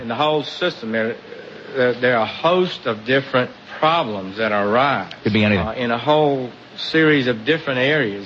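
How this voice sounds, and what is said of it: Southern drawl like Forrest Gump. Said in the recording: “He's sounding kind of like Forrest Gump ... Kentucky accent ... He sounds like Forrest Gump.”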